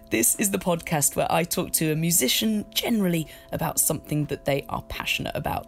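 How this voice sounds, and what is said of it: Croaky voice. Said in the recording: “if I sound a bit croaky this week, but I've got a bit of a weird cough thing. Not sounding as radio-friendly as usual, but maybe a bit sexy, maybe a little bit Phoebe and Friends.”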